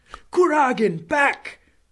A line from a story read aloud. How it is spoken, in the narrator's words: shouted Dolohov